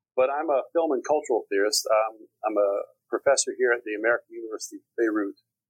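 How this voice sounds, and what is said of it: East Texas American accent. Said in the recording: “As you may or may not be able to tell from my accent, I'm from Texas. I'm originally from a small town in East Texas.”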